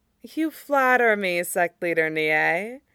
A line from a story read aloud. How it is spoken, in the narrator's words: she said with a laugh